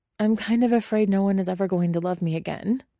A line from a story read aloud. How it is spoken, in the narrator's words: Guillermo blurts out, and humiliatingly his voice cracks on the last word